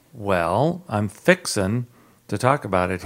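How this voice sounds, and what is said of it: Southern US accent. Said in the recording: “Why am I getting into my southern accent?”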